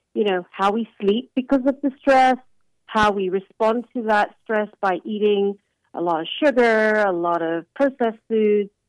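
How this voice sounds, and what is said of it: English accent. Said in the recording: “Your origin, it sounds Indian... I was hearing the England accent there”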